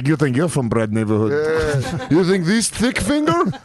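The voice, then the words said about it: Imitated Russian accent. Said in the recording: “Russian accent ... I'm gonna nail your accent”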